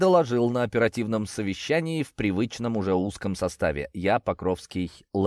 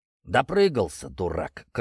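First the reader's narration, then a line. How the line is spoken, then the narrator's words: Curt and angry. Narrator (Russian): кратко и зло резюмировал Покровский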